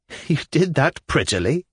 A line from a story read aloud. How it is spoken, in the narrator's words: I laughed suddenly